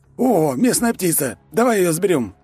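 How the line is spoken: Exclamation. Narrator (Russian): воскликнул ловец

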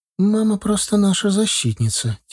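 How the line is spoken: Soft, quiet. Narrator (Russian): тихонько произнесла Зара

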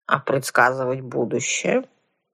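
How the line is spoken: Grumpy woman's voice. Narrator (Russian): брюзгливым голосом осведомила сухопарая дама

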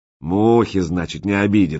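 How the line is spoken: Snorting. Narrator (Russian): хмыкнул он

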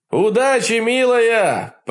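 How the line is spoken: Shouted, echoing. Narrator (Russian): прокричал я ей вслед, и эхо из трубы поддержало меня согласным гулом

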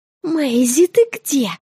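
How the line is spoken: Strangled whisper. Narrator (Russian): сдавленно прошептала я

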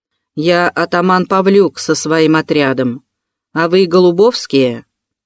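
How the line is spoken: Loud drunken bass growl. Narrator (Russian): громким пропойным басом прорычала

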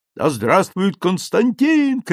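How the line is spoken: Soldiers shouting together. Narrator (Russian): кричали солдаты

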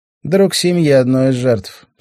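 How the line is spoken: Dry, matter-of-fact. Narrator (Russian): сухо сообщила она

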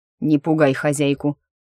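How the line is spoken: Stern reproach, demon. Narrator (Russian): строго попенял ему демон

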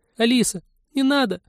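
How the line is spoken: Crying child's squeal. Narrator (Russian): взвизгнул плачущий детский голосок

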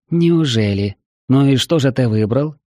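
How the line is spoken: Grim question. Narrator (Russian): мрачно спросила первая леди

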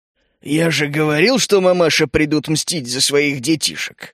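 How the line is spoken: Growled. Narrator (Russian): рыкнул мрак

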